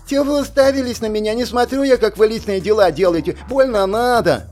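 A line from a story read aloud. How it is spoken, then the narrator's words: Comic lisping shriek. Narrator (Russian): Взвизгнул Тихон, что при его шепелявости звучало крайне комично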